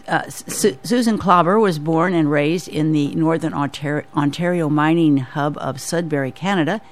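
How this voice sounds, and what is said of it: Sick, strained voice. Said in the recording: “excuse my voice, I have this thing that's going around.”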